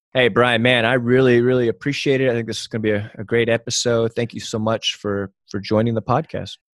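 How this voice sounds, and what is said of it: Polished radio-announcer voice. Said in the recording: “you have an awesome radio voice ... You have you have a great radio voice”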